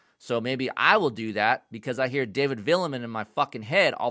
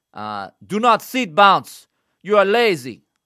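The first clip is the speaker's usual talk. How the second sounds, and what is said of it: Put-on French accent. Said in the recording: “in his French accent ... That's my French accent.”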